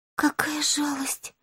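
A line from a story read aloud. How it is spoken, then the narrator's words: Tearful whisper. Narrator (Russian): прошептала Май, и в глазах ее тут же появились слезы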